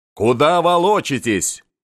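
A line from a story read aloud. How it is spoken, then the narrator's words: Insulting shout. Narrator (Russian): кричал Голицын, людей обижая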